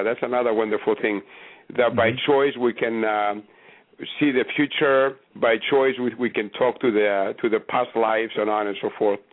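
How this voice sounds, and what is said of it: Greek-accented English. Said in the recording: “The accent you hear is a Greek accent. I'm Greek.”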